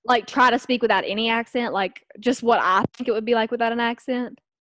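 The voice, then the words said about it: Southern American accent. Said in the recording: “Try to speak like without any Southern accent ... Try to lose your accent. ... Not a chance. ... still Southern as hell.”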